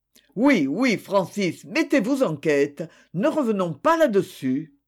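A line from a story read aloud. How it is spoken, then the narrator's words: Desperate cry. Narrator (French): s'écria, aux confins du désespoir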